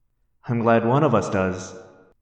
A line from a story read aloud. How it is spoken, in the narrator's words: I said nervously